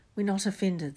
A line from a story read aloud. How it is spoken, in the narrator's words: said Harry quickly